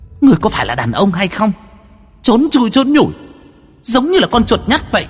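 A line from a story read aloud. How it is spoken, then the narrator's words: Angry roar. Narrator (Vietnamese): Hồng y tức giận mà gầm lên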